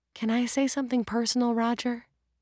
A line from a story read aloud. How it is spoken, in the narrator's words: She whispered